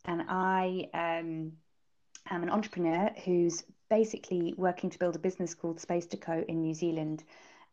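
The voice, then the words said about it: British accent. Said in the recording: “as you can probably tell from my accent, ... I'm originally from the UK”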